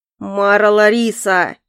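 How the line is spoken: Growl. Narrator (Russian): прорычал он

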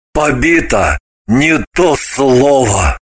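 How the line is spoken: Gloomy assurance. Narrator (Russian): Мрачно заверил Граблин

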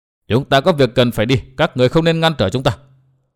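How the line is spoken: Cold woman's voice. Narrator (Vietnamese): bà lạnh lùng nói

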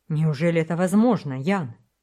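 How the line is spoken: Astonished exclamation. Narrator (Russian): воскликнул Вельмовский, пораженный неожиданным известием

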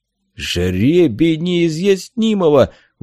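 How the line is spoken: Terrified exclamation. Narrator (Russian): в ужасе воскликнул кормчий

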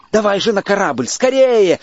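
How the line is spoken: Group shouting. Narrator (Russian): закричали мы

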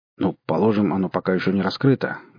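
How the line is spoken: Grumbling. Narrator (Russian): буркнул Отто

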